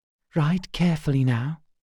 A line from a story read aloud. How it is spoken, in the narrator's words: she admonished him, her voice hushed